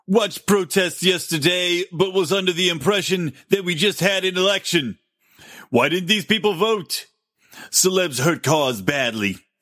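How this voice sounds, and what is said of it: Poor Donald Trump impression. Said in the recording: “I can't do a Trump well enough. I need to practice ... That's the worst impression. I gotta practice that.”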